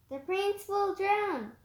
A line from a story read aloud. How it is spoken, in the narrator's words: she cried